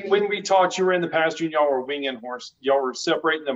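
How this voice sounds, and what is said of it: Texas accent. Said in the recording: “your Texas accent... I do have an accent”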